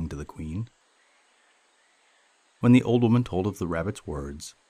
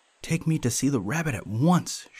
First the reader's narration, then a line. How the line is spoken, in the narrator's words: she cried